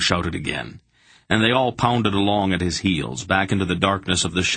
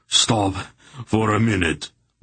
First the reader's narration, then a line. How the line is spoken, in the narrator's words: Barak gasped